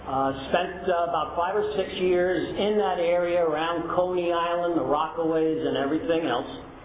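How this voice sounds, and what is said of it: Non-West Coast American accent. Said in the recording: “You can tell from my accent, or the people that know me, that I don't come from the West Coast.”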